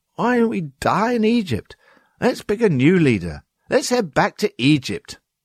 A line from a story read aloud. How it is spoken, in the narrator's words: The people of God started grumbling against their leaders and saying